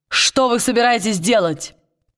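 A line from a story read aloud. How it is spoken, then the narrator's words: Loud over battle noise. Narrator (Russian): Перекрывая шум боя, Уилл громко спросил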